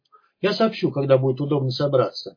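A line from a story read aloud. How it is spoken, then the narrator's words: Plain. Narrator (Russian): сказал Покатилов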